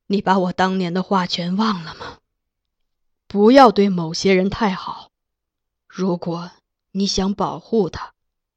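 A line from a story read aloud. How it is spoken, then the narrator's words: Sighing. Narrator (Chinese): 金上叹道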